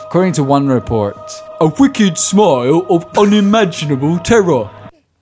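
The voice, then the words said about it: Put-on London accent. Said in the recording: “let me do an authentic, like, London 1800s accent ... that's like an authentic London accent”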